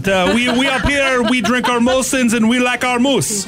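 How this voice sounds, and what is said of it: Put-on Canadian accent. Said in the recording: “Hey, hoser, how about a Canadian accent?”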